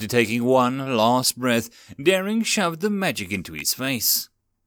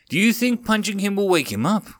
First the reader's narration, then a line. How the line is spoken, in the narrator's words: asked the orphan